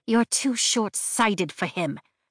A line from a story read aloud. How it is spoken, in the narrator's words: she says quietly like she's afraid of being heard